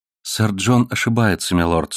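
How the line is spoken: Calm. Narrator (Russian): спокойно сказала она

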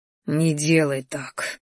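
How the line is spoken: Barely audible. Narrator (Russian): произнес он едва слышно

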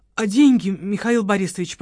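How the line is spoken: Timid babble, mustering courage. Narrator (Russian): пролепетал Володарский, набравшись храбрости

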